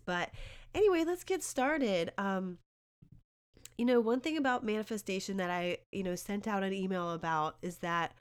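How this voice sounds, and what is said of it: Sick, slightly altered voice. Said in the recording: “I got a little sick from my kids earlier, so you know, obviously my voice is a little different”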